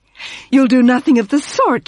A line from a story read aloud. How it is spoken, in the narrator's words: cried